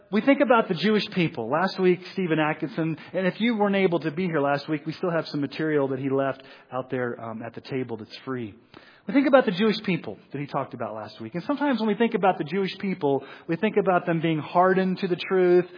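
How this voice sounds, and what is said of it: Mixed Missouri-Texas American accent. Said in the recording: “my weird accent ... you have a weird accent. It's like half Missouri, half Texas, and half I don't know what it is.”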